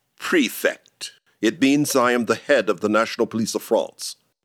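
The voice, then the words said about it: British accent. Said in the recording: “But you have a British accent.”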